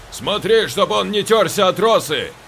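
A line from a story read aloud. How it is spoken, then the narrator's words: Shouting into ear. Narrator (Russian): крикнул Юра на ухо Саше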